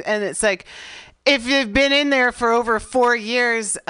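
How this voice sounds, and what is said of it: Shouting, raised loud voice. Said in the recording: “I'm sorry, I'm shouting.”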